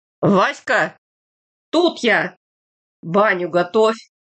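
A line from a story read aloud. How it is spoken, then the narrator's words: Firm commanding call. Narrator (Russian): Крепким хозяйским голосом позвал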